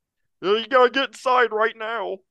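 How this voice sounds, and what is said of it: Croaky cartoon-frog-like voice. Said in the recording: “it kind of sounded like Kermit the Frog ... That was probably a terrible impression.”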